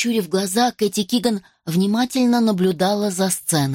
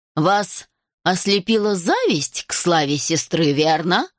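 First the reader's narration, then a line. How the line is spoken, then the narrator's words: Cold question. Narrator (Russian): холодно спросил мистер Маслоу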